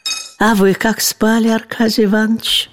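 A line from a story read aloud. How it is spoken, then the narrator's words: Gentle question. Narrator (Russian): спросила ласково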